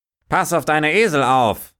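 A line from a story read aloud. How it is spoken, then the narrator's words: Farmer calling out. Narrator (German): rief der Bauer gleich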